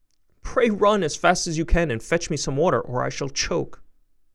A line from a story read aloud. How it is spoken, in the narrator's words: she was in a great fright and cried out to Chanticleer